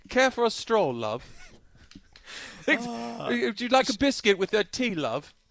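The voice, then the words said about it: Put-on British accent. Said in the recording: “Really good accent... that's pretty good”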